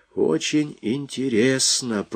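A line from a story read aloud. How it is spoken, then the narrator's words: Calm. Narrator (Russian): произнес капитан Квотерблат спокойно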